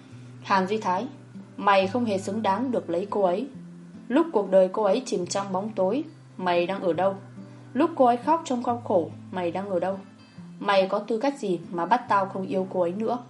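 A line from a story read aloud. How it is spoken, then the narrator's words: Harsh, gritted voice. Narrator (Vietnamese): Quý Phong gằn giọng nói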